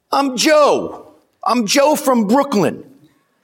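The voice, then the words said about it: Heavy New York accent. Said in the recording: “the guy replied in a heavy New York accent”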